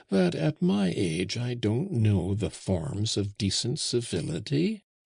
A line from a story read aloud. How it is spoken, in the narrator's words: answered Auchan in a mild voice